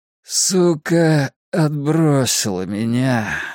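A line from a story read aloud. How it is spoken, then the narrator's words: Tired, just-woken voice. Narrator (Russian): ответил Ричи все тем же усталым голосом только что проснувшегося человека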